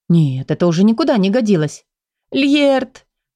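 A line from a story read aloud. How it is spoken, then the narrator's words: Sobbing. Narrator (Russian): Повторила она сквозь всхлипы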